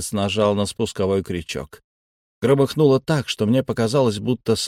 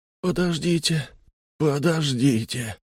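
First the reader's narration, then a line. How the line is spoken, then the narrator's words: Moaning from a cabin. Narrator (Russian): простонали из каюты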